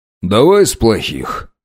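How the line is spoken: Calm. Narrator (Russian): спокойно произнес адмирал

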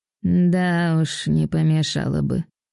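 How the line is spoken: Grumbling. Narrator (Russian): проворчала Мария

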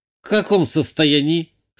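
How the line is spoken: Snorting young woman. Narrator (Russian): хмыкнула девушка

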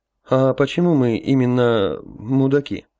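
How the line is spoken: Asked confusedly. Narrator (Russian): растерянно спросил Гоша

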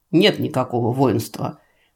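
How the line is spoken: Keeper muttering. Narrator (Russian): пробурчал хранитель

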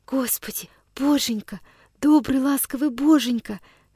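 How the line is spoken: Whispered. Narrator (Russian): шептала она

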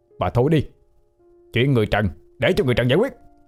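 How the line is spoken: Sudden angry roar. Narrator (Vietnamese): Đột nhiên ba Trọng nổi quạo mà gầm lên

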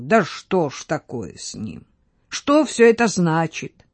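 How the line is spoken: Grumbling. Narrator (Russian): Услышав, что всадника не видно, ворчал

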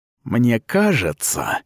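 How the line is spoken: Vicious hiss. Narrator (Russian): злобно прошипел человек

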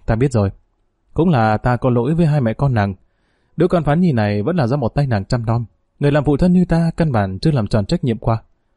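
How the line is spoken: Soft sighing. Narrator (Vietnamese): Dương Lăng nhẹ nhàng thở dài một hơi, nói

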